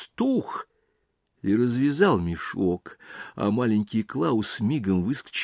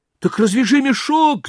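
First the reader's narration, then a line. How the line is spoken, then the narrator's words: Shout. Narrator (Russian): закричал маленький Клаус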